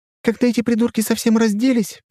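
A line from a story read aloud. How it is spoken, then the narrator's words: Cheerful chirping. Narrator (Russian): весело щебетала Миси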